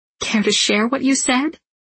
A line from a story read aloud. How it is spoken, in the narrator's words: He chuckles, a deep, rich sound